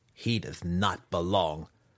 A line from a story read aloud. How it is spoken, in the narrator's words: Massage replied grimly